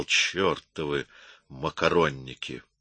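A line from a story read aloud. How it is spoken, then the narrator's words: Quiet and angry. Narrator (Russian): тихо и со злостью сказал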